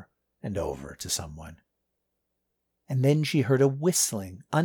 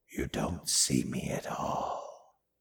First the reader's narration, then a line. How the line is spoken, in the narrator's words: the voice of another vampire down below her, in the basement level, whispering